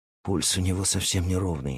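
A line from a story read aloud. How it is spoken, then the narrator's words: Quick and quiet. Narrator (Russian): быстро и тихо произнес Джеймс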